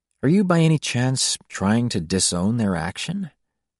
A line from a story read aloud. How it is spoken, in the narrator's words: He asked gently